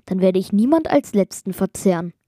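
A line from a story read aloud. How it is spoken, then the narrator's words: Loud laughing giant. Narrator (German): Der Kyklop lachte laut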